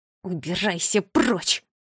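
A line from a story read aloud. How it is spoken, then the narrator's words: Growl. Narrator (Russian): Прорычала она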